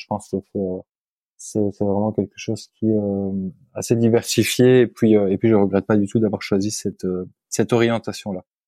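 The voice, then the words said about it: Slight Belgian French accent. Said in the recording (French): “certains l'auront reconnu à ton accent, tu es belge ... on est de la région de Tournai ... on me dit que j'ai quand même un petit accent”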